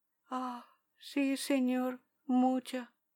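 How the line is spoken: Woman murmuring. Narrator (Spanish): murmuró ella

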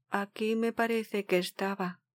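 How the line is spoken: Murmur. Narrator (Spanish): murmuró

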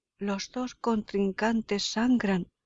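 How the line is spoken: Exclamation. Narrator (Spanish): exclama Horacio

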